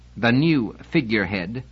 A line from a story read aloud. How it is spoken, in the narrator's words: his face twisted with irony as he spat out the words